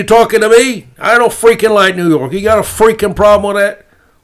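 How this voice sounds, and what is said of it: Fake New York accent. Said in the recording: “my fake New York accent.”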